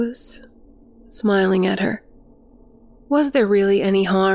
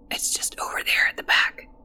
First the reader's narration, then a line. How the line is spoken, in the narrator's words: whispered the boy